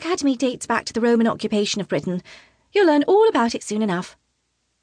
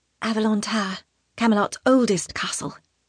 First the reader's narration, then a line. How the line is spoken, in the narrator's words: Tonna whispers